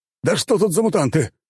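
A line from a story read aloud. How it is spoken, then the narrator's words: Roar. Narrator (Russian): взревел тот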